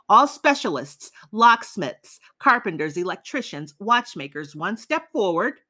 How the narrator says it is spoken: The capos arrived, shouting

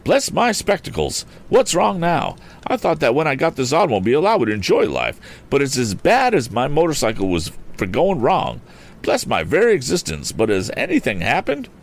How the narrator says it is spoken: The voice exclaimed

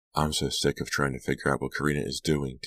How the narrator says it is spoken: Delia sighed

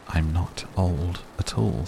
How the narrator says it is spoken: said the tree

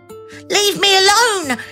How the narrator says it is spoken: cried

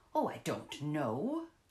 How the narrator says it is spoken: the secretary retorted testily

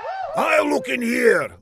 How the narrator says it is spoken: Laszlo shouted

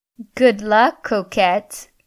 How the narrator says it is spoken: laughed the African-American girl

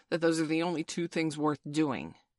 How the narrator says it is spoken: growled John

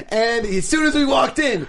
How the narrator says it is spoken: he screamed

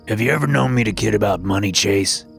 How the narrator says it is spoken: Grandpa said, his voice a stern growl

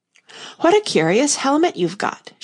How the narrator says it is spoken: she said cheerfully

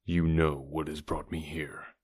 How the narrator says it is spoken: continued in the same low tone

